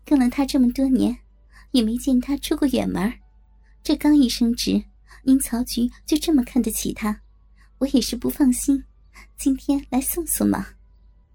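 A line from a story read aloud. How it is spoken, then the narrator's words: Laughing reply. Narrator (Chinese): 我笑着回答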